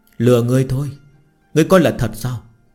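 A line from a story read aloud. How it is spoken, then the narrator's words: Giggling, shaking with laughter. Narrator (Vietnamese): phì cười, cười khanh khách đến run rẩy cả người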